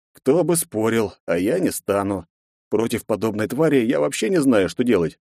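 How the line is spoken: Heavy sigh. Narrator (Russian): тяжело вздохнул я

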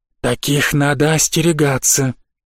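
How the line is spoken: Hissed. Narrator (Russian): прошипел Снес

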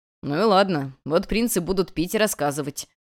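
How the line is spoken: Man's chuckle. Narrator (Russian): хохотнул мужчина

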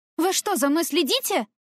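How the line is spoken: Barked. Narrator (Russian): рявкнула я куда-то вверх

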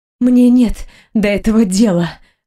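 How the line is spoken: Strained, breathy exhale. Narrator (Russian): выдохнула я через силу

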